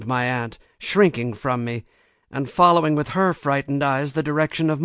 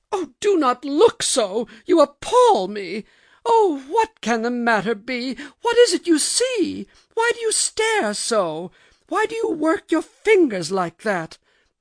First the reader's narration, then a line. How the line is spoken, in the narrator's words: My aunt cried out